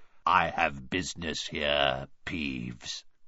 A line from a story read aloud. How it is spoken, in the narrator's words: croaked Harry